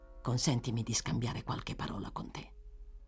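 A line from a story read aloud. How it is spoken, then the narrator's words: Low voice. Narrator (Italian): disse Harry Mail a voce bassa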